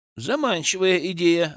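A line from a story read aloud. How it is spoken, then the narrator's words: Laughing. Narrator (Russian): рассмеялся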